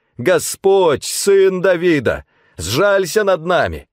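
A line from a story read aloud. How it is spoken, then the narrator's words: Louder shouting. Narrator (Russian): Толпа сердилась и требовала, чтобы они замолчали, но они кричали еще громче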